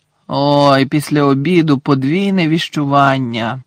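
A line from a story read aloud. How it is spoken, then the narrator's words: Groaning. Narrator (Ukrainian): простогнав Гаррі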